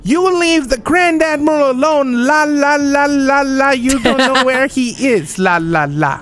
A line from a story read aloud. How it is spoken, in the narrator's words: I start yelling at her